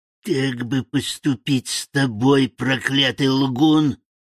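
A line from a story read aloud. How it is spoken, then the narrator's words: Vicious hiss. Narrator (Russian): прошипела она, злобно глядя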